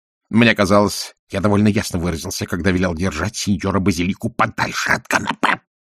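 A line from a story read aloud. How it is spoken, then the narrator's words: Hiss. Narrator (Russian): прошипел он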